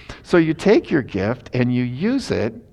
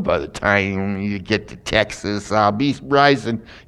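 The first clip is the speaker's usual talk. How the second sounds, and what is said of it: Poor imitation of a singer. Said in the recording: “that imitation was bad”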